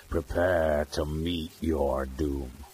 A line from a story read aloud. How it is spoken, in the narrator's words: growled Graham in sinister tones